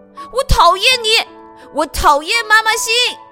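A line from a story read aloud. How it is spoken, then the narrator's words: Loud. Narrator (Chinese): 阿志大声地对老师说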